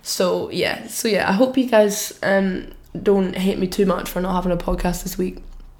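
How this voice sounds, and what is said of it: Voice altered by a cough. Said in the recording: “I've just got a cough ... you can hear my voice. My voice sounds different um, I think.”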